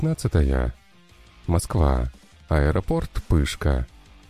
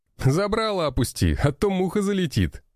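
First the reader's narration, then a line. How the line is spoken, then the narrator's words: Laughing. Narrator (Russian): смеялся товарищ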